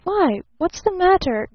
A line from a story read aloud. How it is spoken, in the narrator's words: gasped Barton